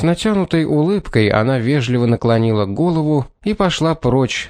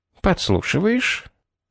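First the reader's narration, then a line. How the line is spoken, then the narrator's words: Quiet question. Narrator (Russian): тихонько спросила она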